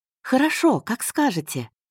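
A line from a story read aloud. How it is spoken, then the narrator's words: Cheerful reply. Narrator (Russian): радостно отвечала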